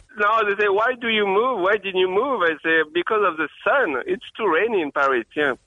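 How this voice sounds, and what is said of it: French accent. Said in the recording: “great accent ... he's from France ... That's a great accent, by the way.”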